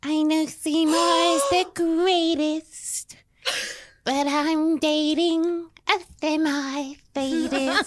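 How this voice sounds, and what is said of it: Sung impression of Audrey. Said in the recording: “Audrey from Little Shop of Horrors. I do better singing than speaking.”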